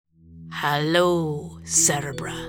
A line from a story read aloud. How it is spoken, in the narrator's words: said the doctor grimly